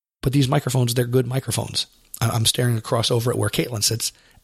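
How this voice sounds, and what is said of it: Congested voice from a cold. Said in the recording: “my voice sounds bad. I have a little bit of a cold ... I sound funny”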